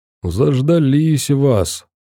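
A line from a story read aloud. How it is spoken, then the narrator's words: Nasal, unpleasant voice. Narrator (Russian): прогундосил противным голосом Ренат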